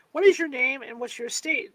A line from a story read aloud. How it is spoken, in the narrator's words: asked the judge